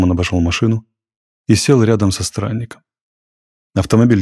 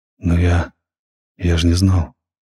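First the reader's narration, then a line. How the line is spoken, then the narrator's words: Dejected voice. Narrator (Russian): произнес Максим упавшим голосом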